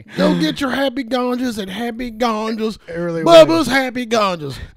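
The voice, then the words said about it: Put-on redneck accent. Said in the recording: “I'm doing a redneck voice for NASCAR”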